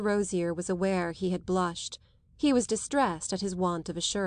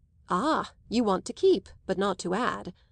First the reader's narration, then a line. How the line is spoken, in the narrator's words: Rosier remarked brightly